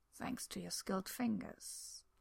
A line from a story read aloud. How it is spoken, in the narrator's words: Arthur murmurs